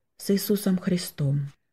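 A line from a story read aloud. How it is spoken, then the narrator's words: Quiet addition. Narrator (Russian): сказал он в конце и тихо добавил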